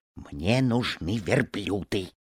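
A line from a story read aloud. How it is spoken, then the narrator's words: Quiet reply. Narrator (Russian): тихо ответил ему товарищ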